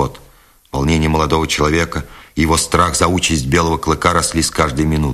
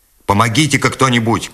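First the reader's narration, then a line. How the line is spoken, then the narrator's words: Shout to a crowd. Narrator (Russian): крикнул Скотт, обращаясь к толпе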